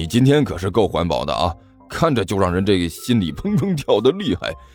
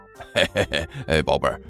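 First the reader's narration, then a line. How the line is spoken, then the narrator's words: Fawning, ingratiating laugh. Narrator (Chinese): 徐主任舔着脸笑道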